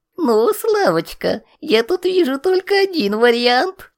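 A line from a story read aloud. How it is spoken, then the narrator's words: Pleased sing-song. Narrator (Russian): Не без удовольствия, нараспев, сказал Валик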